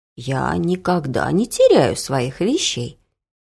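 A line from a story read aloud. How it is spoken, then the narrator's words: Calm old woman's reply. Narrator (Russian): спокойно отвечала бабушка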